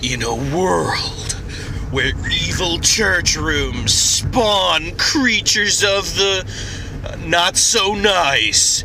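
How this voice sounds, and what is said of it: Dramatic movie trailer narrator voice. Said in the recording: “I'm going to go ahead and talk in the movie trailer voice.”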